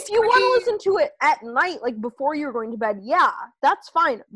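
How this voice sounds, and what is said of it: Strong Midwestern American accent. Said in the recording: “my just disgusting Midwestern accent”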